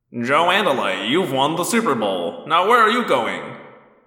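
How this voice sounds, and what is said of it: Mimics a TV commercial announcer. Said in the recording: “mimicking the Disney World commercials”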